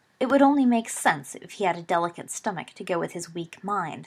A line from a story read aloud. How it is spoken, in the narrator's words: sneered Snape